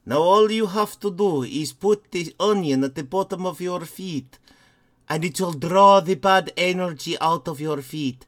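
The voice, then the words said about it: Put-on old Romani accent. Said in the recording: “like a 15th century Romani accent”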